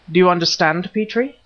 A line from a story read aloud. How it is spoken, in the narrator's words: cried Nayland Smith, his eyes blazing with excitement